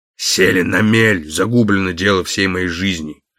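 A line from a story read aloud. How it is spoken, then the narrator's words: Dull hollow voice. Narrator (Russian): сказал ЛМ глухим голосом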